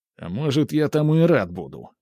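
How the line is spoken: Snapping retort. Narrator (Russian): огрызнулся

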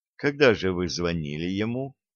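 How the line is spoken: Plain. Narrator (Russian): спросила Хельга

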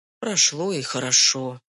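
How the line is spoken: Sighing. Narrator (Russian): вздохнул Михаил

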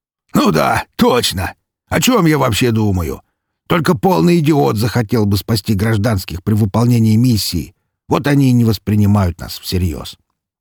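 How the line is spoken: Rhino's loud laughter. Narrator (Russian): Расхохотался носорог

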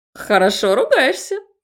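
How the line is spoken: Cheerful girl. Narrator (Russian): весело заметила девчонка

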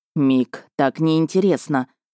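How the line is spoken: Disappointed drawl. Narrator (Russian): разочарованно протянул зяблик

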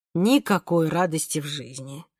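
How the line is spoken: Sighing. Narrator (Russian): вздохнул папа

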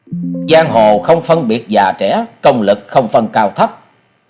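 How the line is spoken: Angry swordsman. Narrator (Vietnamese): Gã kiếm khách đi đầu giận dữ nói

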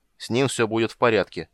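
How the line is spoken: Curt commanding tone. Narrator (Russian): отрезал Карамон едва ли неприказным тоном

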